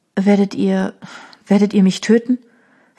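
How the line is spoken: Trembling voice. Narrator (German): fragte sie mit bebender Stimme

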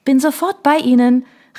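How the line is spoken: Cheerful call back. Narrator (German): rief Isabelle mit strahlendem Lächeln zurück

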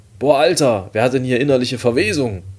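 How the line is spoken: Loud call. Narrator (German): rief ich laut

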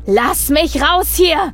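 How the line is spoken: Roared. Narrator (German): brüllte er

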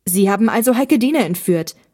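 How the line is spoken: Angry shout. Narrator (German): rief Olli wütend

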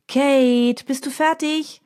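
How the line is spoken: Calling from another room. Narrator (German): ruft Mina aus ihrem Schlafzimmer

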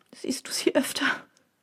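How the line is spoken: Sobbing. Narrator (German): schluchzte sie

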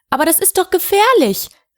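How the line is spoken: Excited call. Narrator (German): rief Wilhelmine aufgeregt

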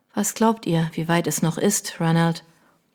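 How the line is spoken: Quiet question. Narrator (German): Leise fragte sie

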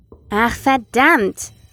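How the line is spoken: Frustrated exclamation. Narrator (German): rief Marcus frustriert aus

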